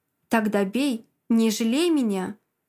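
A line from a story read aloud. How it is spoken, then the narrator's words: Serious, calm. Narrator (Russian): Говорит так серьезно, спокойно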